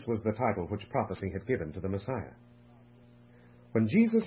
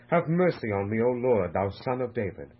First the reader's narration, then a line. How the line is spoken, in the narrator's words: The Syrophoenician woman, blind Bartimaeus, and many others had cried to him for help